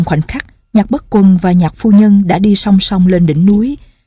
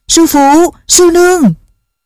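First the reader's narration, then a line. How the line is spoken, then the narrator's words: Joyful loud call. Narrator (Vietnamese): Chàng vui mừng khôn xiết, lớn tiếng gọi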